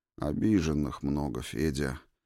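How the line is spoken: Sighing. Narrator (Russian): вздохнул две мишени

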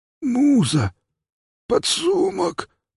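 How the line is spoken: Hoarse wheeze. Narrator (Russian): прохрипел он

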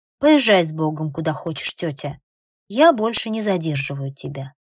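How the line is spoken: Firm voice. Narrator (Russian): Нинабек Израил своим твердым голосом говорит

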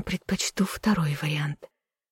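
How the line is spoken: Intimate whisper. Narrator (Russian): прошептала мне в губы Левелин

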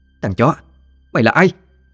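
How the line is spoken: Angry shout. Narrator (Vietnamese): Huyền Phát quát

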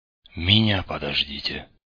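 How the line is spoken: Hoarse call. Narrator (Russian): Хриплый голос

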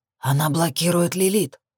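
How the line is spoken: Furious growl. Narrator (Russian): разъяренно рыкнул Шакс

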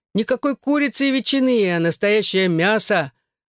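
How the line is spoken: Laughing, swelling with pride. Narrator (Russian): Он засмеялся, раздуваясь от гордости

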